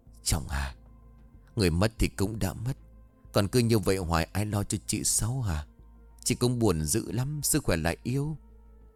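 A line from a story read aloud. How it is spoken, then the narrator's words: Gentle advising. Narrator (Vietnamese): Bà Tư khuyên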